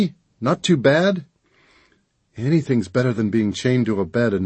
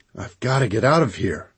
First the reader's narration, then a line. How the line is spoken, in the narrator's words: I muttered